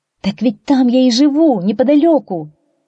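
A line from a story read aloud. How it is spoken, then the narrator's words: Exclamation. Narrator (Russian): воскликнула Туань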